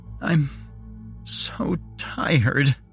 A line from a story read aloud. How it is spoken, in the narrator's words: she sobbed